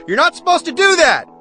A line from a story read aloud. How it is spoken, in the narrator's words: a voice shrieks out